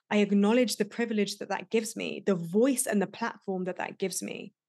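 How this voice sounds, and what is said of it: British accent. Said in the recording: “I have the benefit of a British accent.”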